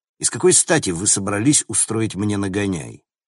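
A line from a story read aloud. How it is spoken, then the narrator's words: Grim smirk. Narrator (Russian): Она мрачно усмехнулась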